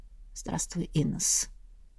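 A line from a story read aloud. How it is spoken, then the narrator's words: Hoarse. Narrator (Russian): хрипло произнес я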